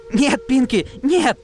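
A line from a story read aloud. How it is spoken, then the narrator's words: Shout. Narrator (Russian): закричала Дэш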